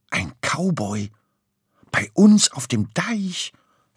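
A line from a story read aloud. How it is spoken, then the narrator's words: Awed whisper. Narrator (German): flüsterte Murmeltier ehrfurchtsvoll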